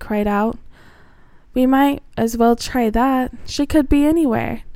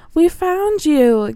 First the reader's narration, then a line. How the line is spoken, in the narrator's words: Gilly said excitedly